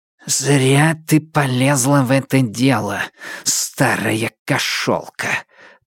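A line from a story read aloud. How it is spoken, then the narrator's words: Hissing. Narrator (Russian): прошипел Темса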